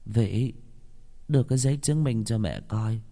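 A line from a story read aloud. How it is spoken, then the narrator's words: Old woman trembling. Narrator (Vietnamese): Bà già run run đáp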